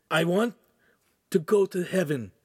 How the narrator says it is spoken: Ugolino said solemnly

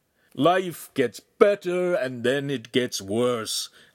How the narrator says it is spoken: Agostino moaned

